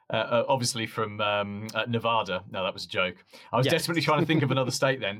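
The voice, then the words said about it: British accent. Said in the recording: “As you can tell from ... accent, he's not from Georgia... I'm in the UK, about an hour from London”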